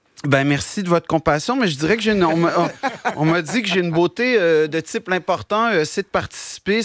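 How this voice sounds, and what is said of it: Québécois French accent. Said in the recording (French): “j'ai un accent ... l'accent québécois”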